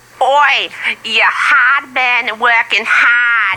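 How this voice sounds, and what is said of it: Put-on Australian accent. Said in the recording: “I'm going to stop doing that Australian accent”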